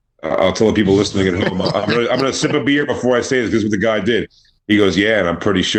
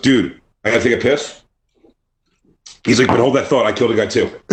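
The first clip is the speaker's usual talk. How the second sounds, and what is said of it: Impression of a casual guy. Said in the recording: “this is the best thing ever in my life to do an impression of”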